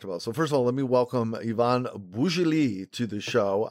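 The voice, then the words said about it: Fake French accent on a name. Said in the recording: “I love being able to fake French accent myself here with someone's name.”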